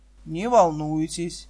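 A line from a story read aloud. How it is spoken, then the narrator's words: Soft. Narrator (Russian): мягко сказал Райдер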